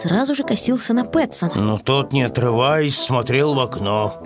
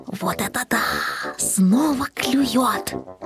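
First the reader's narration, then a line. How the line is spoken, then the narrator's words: Excited whisper. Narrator (Russian): Каждый раз, когда что-то попадалось на крючок, котенок шептал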